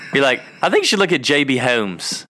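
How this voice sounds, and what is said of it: Exaggerated country drawl, sounds British. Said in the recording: “It's like so country that it comes out like British or something.”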